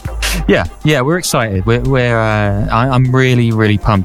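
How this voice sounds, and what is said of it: Flat monotone, deadpan delivery. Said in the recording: “as you can tell from my voice. It's not... doesn't really waver up and down, right?”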